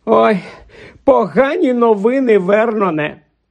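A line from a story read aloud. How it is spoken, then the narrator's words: Moaning. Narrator (Ukrainian): простогнала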